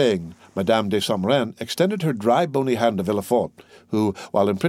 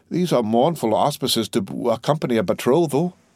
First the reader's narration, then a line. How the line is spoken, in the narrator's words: sighed poor René